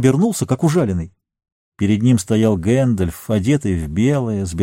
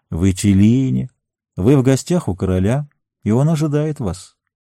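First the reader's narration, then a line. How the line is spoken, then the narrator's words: Gentle voice from behind. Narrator (Russian): Чей-то голос ласково произнес позади него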